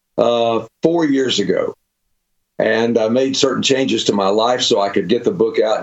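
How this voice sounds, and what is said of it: Slightly hoarse voice. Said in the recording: “I'm still a little bit hoarse from the cold”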